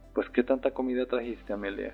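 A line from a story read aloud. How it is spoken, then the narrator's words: Father laughing. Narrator (Spanish): escuché decir a mi padre riendo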